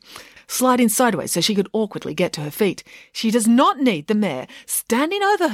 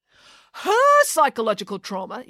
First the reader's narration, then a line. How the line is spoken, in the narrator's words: yelled the mayor